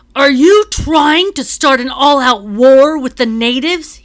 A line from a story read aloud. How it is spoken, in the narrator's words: he shouts